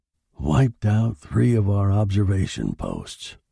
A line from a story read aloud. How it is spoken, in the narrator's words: murmured the general